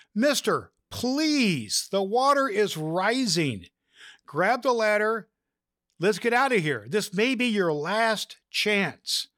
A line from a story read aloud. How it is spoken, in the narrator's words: the pilot shouted to him through the megaphone